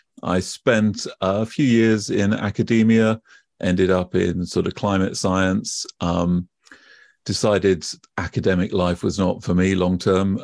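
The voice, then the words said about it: British accent. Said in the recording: “you can probably tell from my accent already, I am British”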